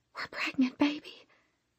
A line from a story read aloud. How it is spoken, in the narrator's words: she whispered